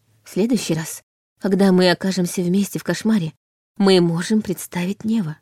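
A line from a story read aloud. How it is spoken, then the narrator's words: Quiet suggestion. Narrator (Russian): тихо предложила Лиля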